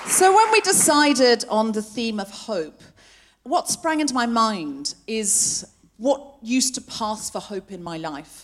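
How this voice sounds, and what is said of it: Accent not especially Australian, English-sounding. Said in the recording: “I know I don't sound especially Australian, but I read a lot of Enid Blyton as a child. ... And I picked up the accent from the books.”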